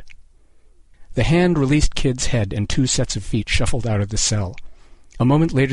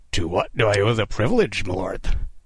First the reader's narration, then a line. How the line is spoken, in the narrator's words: Kid rasped, masking his terror with ironic courtesy